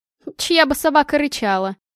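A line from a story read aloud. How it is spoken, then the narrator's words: Snort. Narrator (Russian): хмыкнула Аня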